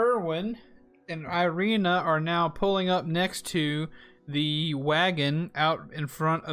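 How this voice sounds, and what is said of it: Usual voice. Nothing is said of it.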